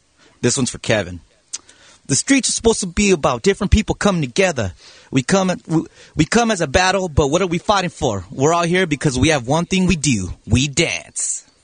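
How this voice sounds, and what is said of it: Put-on homeboy accent. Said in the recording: “were you doing some sort of an accent there? ... that was a homeboy.”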